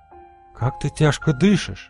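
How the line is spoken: Muffled whisper. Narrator (Russian): прошептала она, уткнувшись щекой мне в грудь

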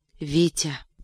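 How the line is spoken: Sleepy whisper. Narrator (Russian): прошептала она как бы сквозь сон

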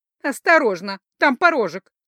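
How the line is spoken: Snide warning from below. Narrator (Russian): ехидно предупредила откуда-то снизу привратница

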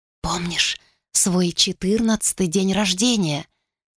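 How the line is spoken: Whispering. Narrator (Russian): шептала Хелисента

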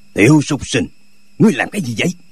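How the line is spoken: Angry bark. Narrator (Vietnamese): cá giận quát

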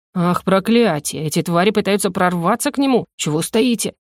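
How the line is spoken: Growled. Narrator (Russian): рыкнул охранником

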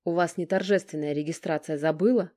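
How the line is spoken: Impatient bark. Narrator (Russian): рявкнул тот, явно теряя терпение

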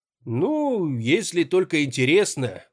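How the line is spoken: Drawn-out. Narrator (Russian): протянул я

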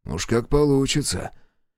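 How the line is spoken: Wheezing. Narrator (Russian): Паренек захрипел

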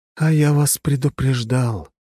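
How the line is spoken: Sad voice. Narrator (Russian): печально произнес голос

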